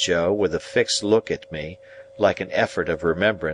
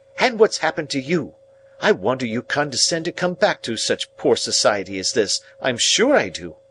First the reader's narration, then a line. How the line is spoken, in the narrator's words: cried